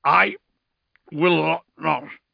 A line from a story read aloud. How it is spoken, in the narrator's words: slurred Dante